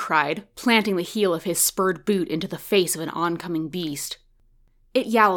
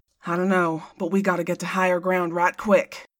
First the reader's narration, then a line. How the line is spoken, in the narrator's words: Cyrus grunted back